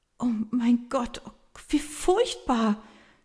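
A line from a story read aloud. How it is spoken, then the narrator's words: Helpless stammer. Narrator (German): stammelt sie hilflos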